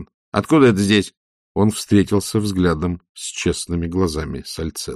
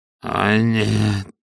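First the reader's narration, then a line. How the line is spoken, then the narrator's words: Hoarse moan. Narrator (Russian): хрипло простонал Пакет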